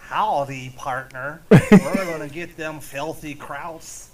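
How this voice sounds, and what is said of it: Clumsy put-on American cowboy accent. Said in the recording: “Peter Stormare trying to do an American accent ... That's a little rough to watch”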